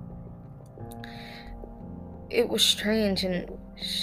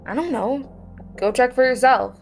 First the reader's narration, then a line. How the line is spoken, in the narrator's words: exclaimed Anthony